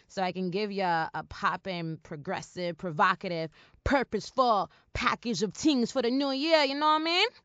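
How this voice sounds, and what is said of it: Badly done put-on accent. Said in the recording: “That was a horrible, accent. Look what Drake did to me.”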